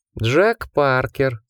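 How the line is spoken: Purring. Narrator (Russian): промурлыкал он

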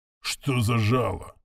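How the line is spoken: Sullen, through teeth. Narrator (Russian): угрюмо процедил капитан

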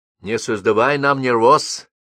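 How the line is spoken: Stern. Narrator (Russian): строго сказала княжна

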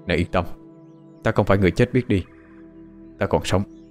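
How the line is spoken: Soft speech. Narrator (Vietnamese): khẽ nói

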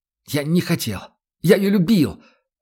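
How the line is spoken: Half shout, half sob. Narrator (Russian): То ли выкрикнул, то ли всхлипнул он

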